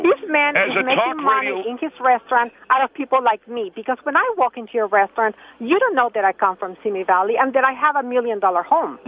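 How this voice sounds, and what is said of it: German accent. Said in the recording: “I hear the German accent ... So she's got an accent.”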